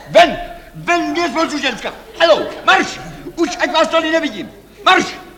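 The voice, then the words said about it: Shouting angrily. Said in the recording (Czech): “Nekřičte!”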